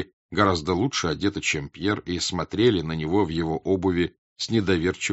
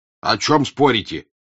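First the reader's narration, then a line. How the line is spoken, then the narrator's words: Angry major. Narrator (Russian): сердито говорил майор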